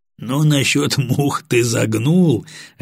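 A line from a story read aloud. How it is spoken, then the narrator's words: Laughing. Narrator (Russian): рассмеялся Батоныч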